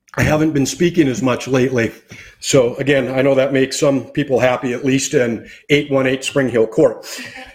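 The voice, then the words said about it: Strained, struggling voice. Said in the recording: “my voice is having a little challenge.”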